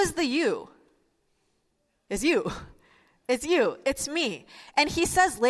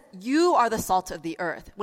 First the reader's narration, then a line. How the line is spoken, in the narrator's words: when he says,